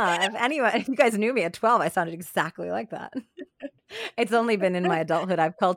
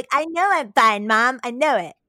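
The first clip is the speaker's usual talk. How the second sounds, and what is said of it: Teenage Cartman voice. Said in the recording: “love your like teenage Cartman voice”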